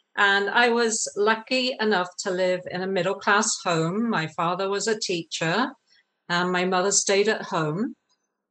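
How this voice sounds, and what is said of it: English accent. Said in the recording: “I grew up in England, as you can maybe tell from my accent. Some people can't”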